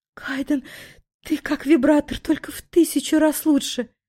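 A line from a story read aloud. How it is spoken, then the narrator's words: Delirious whisper. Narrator (Russian): В полубреду прошептала я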